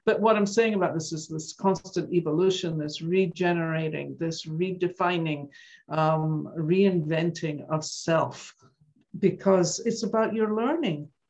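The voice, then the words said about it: Softened Scottish accent. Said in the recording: “I've been gone from Scotland for over 50 years, so you can still hear it... Accent. I'll never leave completely, but it's gotten softened over the years.”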